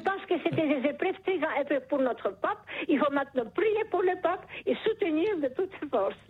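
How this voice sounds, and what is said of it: Charming foreign accent in French. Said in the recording (French): “Vous avez un charmant accent ... ce joli accent”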